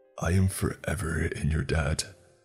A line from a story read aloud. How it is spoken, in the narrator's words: he said while letting out a grunt of satisfaction